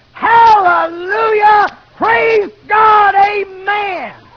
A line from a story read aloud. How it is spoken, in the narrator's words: he's shouting